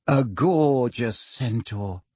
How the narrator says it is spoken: sighed Parvati

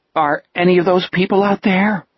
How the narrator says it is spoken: Richard asked nervously

